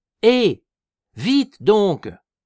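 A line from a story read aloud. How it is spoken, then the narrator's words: Shouting. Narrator (French): leur cria Eugène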